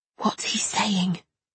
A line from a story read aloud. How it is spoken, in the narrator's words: I whispered to Lamin